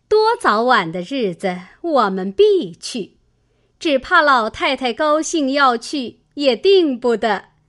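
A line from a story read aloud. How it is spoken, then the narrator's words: Two women laughing. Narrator (Chinese): 李纨、凤姐儿都笑道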